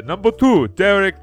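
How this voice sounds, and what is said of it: Vaguely Spanish-sounding put-on accent. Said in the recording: “Why do I have an accent? ... I don't know what that accent was. ... It was like a Spanish.”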